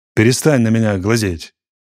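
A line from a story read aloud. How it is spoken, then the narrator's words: Angry. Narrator (Russian): сердито сказал он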